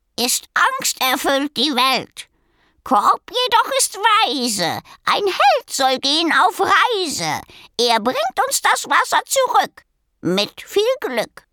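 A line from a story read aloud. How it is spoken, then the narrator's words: Croak. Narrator (German): krächzte er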